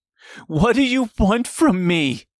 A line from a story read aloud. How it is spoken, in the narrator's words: screamed